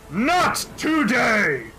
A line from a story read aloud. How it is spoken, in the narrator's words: he yells